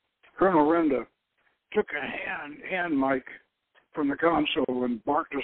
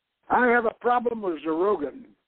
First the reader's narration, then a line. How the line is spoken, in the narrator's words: Colonel Renda growled